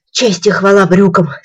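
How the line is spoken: Plain. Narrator (Russian): сказал Муми-тролль

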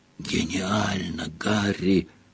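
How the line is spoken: Whisper. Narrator (Russian): прошептал Рон

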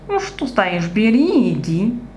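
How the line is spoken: Displeased grumble. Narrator (Russian): недовольно проворчал Пушок

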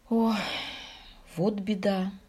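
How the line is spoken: Sighing. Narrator (Russian): вздохнул он

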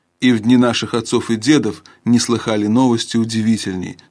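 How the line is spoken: Plain. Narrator (Russian): сказал Алмаз

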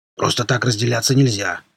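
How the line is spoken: Plain. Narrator (Russian): сказал Рвач

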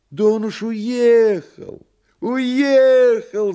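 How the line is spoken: Interpreter shouting. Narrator (Russian): закричал переводчик

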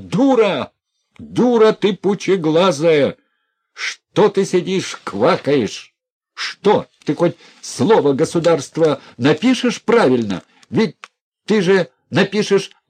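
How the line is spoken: Furious indecent shouting. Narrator (Russian): Все взорвалось в Князеве злым протестом, все вскипело волной гнева, он закричал неприлично

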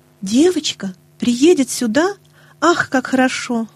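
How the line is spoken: Delighted exclamation. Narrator (Russian): воскликнула Нэнси

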